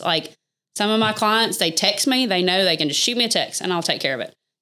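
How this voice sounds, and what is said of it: Strong Southern country accent. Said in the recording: “is what a lot of people call me. So because my accent, I know I'm very country ... I just want to hear you talk today ... the country accent”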